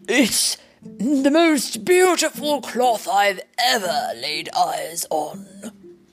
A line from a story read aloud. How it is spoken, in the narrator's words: he exclaimed